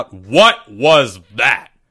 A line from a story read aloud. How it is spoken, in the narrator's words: Greg yelled out